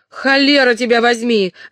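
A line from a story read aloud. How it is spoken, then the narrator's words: Shouted with a grin. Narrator (Russian): закричал Лонг Уилл, скаля в ухмылке зубы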